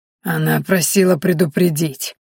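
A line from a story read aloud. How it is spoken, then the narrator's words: Hoarse mocking rasp. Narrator (Russian): прохрипела девушка и издевательски улыбнулась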